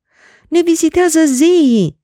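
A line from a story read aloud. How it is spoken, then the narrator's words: Crowd shrieking. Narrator (Romanian): țipau oamenii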